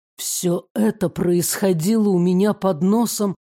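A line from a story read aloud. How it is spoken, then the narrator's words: Muffled question. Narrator (Russian): глухо переспросил он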